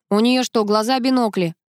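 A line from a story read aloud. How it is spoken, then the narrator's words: Young lad's snort. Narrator (Russian): хмыкнул паренек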